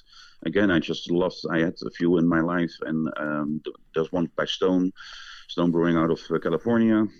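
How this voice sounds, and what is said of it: Dutch accent. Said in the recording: “your accent. Where are you from originally? ... I'm originally from the Netherlands.”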